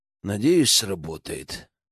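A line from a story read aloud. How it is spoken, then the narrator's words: Muttered. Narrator (Russian): буркнул Генке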